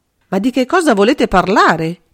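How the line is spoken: Involuntary, bewildered exclamation. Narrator (Italian): esclamò suo malgrado Bonard, comprendendo sempre meno

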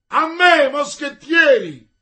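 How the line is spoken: Shouted. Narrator (Italian): gridò D'Artagnan

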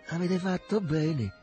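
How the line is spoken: Plain, old man. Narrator (Italian): disse il vecchio

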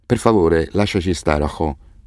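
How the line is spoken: Flat voice. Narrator (Italian): disse con voce piatta

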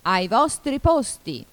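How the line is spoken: Queen shouting, thunderous. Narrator (Italian): gridò la regina con voce tonante

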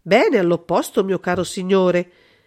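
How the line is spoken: King exclaiming. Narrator (Italian): esclamò il re

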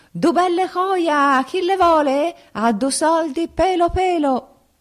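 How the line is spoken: Loud hawker's cry. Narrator (Italian): urla che ti urlo

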